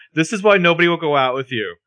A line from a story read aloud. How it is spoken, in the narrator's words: Spencer yells